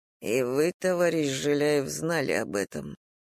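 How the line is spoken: Muttered. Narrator (Russian): пробормотал Дима

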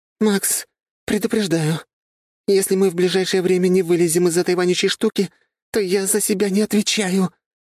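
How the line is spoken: Hoarse wheeze. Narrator (Russian): прохрипела Полина

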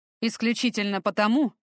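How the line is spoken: Snorting. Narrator (Russian): Фортем хмыкнул

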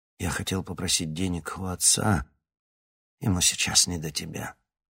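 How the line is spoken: Gentle, smiling. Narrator (Russian): мягко улыбнулся старик

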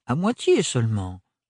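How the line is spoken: Plain. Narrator (French): dit Parrain

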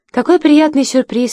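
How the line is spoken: Smiling exclamation, woman. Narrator (Russian): воскликнула Энн Лестер, с улыбкой

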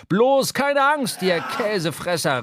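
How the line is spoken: Called out. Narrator (German): rief Stubb

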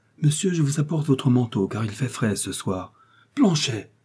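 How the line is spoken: Joyful exclamation. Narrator (French): s'écria D'Artagnan, ivre de joie

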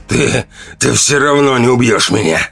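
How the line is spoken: Hoarse, clinging to pride. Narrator (Russian): прохрипел Ранд, пытаясь сохранить остатки гордости

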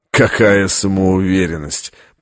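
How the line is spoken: Contemptuous snort. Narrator (Russian): презрительно фыркнул ассасин

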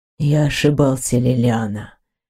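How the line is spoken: Hoarse. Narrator (Russian): хрипло ответил он

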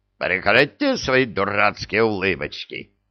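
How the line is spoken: Sudden bark. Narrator (Russian): неожиданно гаркнул Вулф

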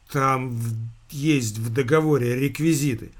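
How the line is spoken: Muffled mumble. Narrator (Russian): глухо промямлил Антон

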